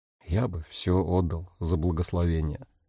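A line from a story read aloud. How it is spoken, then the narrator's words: Quiet. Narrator (Russian): тихо произнес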